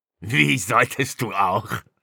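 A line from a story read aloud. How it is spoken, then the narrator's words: Mocking laugh. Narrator (German): Bricknesch lachte spöttisch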